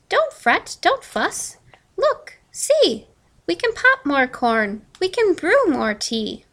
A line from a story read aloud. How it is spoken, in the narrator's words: Mouse squeaks